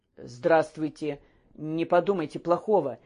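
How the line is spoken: Restrained, quiet voice. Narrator (Russian): говорил сдержанно негромким голосом

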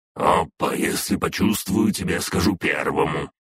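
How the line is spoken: Grumbling dragoness. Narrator (Russian): проворчала дракониха

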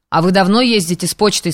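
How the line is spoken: Plain question, student. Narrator (Russian): спросил студент

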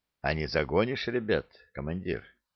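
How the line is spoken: Quiet question from a vagrant. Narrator (Russian): бродяга тихо спросил

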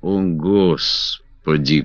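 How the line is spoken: Groan. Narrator (Russian): простонал Гуд

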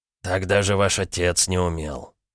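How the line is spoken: Hoarse rasp. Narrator (Russian): прохрипел серф

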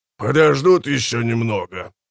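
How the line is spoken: Growl. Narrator (Russian): прорычал Хумброл Тор

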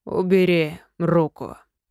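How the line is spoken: Slow. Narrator (Russian): произнес он медленно

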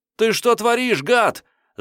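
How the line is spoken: Astonished yelling. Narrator (Russian): заорал он, вытаращив глаза от изумления

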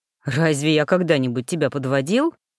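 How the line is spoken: Mocking. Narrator (Russian): насмешливо приподнял брови Дитер

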